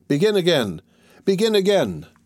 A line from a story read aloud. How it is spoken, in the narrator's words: But Gringoire had multiplied himself and only shouted the more vigorously